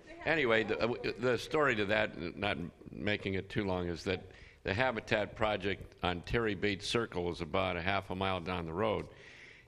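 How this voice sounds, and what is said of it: Slightly raspy voice. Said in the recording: “My voice is like yours. I'm a little raspy.”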